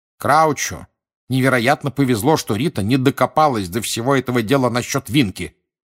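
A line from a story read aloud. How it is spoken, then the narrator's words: Irritated mutter. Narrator (Russian): раздраженно пробурчал мистер Уизли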